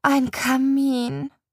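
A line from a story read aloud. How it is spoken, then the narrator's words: Sigh. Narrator (German): seufze ich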